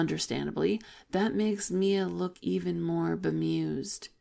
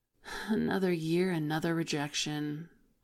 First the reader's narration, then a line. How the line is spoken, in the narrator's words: she says, sighing dramatically, but looking largely unaffected